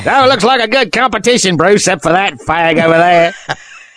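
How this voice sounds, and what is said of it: Bad put-on Australian accent. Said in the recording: “I do a terrible Australian accent”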